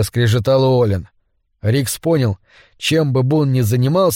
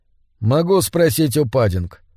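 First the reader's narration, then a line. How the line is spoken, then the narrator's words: Calm. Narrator (Russian): спокойно сказал Рикс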